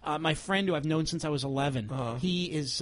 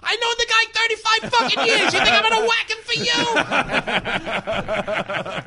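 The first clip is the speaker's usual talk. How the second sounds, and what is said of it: Joe Pesci impression. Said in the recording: “That's the best Pesci impression I've ever had. ... That was really good. That was good Pesci.”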